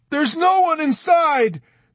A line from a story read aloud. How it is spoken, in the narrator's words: Dunbar yelled out at him unexpectedly